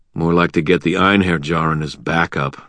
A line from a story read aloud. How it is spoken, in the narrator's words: I muttered